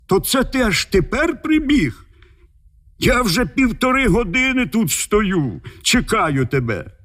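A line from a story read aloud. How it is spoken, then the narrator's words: Shouted. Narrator (Ukrainian): як закричить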